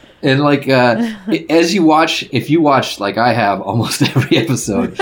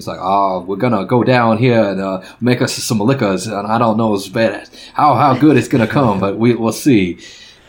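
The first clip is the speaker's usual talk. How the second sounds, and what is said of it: Exaggerated Southern drawl, Foghorn Leghorn-like. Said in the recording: “accent is amazing. I'm still trying. It's like Foghorn Leghorn”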